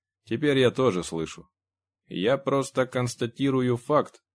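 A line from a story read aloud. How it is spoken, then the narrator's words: Lifeless computer voice. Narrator (Russian): ответил компьютер безжизненным голосом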